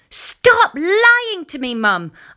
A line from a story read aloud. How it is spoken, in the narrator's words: shrieked